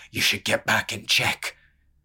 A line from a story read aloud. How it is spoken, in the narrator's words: Haytham snarled